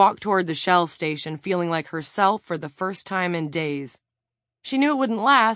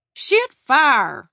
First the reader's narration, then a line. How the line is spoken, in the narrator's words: exclaimed Reed Barrows, the deputy